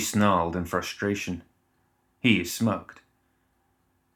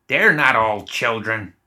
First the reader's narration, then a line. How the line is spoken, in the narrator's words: Zoraida snapped